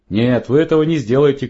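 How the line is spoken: Shouting. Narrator (Russian): крикнул Джонни

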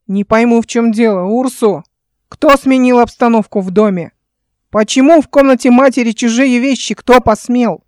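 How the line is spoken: Menacing yell. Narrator (Russian): орала грозно

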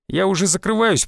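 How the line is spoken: Grumbled mutter. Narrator (Russian): пробурчал он

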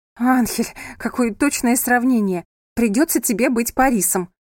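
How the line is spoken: Laughing woman. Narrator (Russian): засмеялась она

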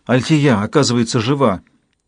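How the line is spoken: Breathless. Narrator (Russian): выдохнула она

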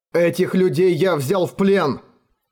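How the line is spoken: Shouting. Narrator (Russian): крикнул Эрегон

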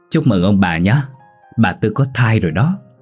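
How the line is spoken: Laughing loudly. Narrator (Vietnamese): Ông ... cười lớn

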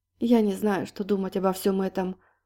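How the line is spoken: Crushed, dejected voice. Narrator (Russian): убитым голосом призналась Полина

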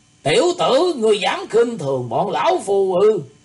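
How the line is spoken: Angry glaring shout. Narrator (Vietnamese): Lam Thị Trung trừng mắt quát lên

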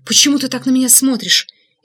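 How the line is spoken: Frightened question. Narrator (Russian): испуганно спросила Инга

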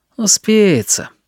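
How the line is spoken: Lazy answer. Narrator (Russian): лениво ответил он

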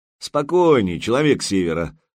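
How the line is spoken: Mocking. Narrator (Russian): насмешливо произнес Артем

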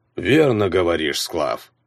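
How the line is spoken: Grumbling. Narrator (Russian): проворчал он

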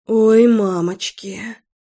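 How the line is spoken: Breathless exhale. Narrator (Russian): выдохнула я

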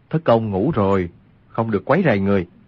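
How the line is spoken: Lowered voice. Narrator (Vietnamese): Quách Tĩnh xua tay hạ giọng nói

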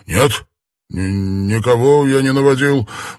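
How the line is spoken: Stammering. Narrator (Russian): произнес заикаясь Суслив

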